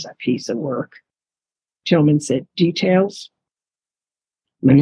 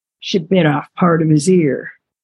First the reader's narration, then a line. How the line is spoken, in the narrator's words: Tawny gasped